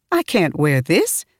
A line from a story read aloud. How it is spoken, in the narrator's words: said, laughing